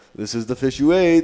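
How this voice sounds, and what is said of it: Put-on foreign accent. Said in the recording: “I'm probably going to give this like an accent that's not even Zanzibar”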